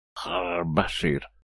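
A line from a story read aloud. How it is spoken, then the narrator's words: Strangled wheeze. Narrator (Russian): сдавленно прохрипел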